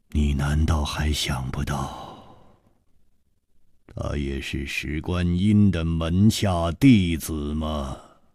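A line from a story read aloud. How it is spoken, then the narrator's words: Sighing, word by word. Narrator (Chinese): 楚留香长长的叹了一口气，一字字的说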